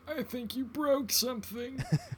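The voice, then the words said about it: Imitates a movie character's voice. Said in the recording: “That was a good impression of that guy.”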